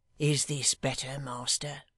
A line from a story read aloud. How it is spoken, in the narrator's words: not seeming to speak, Hugh muttered in his ear